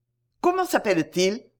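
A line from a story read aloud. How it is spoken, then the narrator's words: Quick, lively. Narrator (French): reprit vivement M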